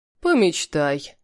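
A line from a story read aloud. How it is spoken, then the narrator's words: Snorting scoff. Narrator (Russian): хмыкнул Халиль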